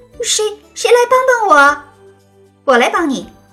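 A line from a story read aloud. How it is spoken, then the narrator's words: Chicken crying out loudly. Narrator (Chinese): 幸运的鸡 大声叫起来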